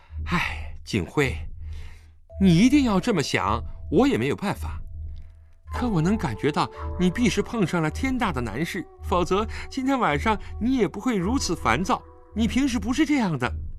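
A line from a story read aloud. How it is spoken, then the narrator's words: Sighing. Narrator (Chinese): 陈秋月叹了口气道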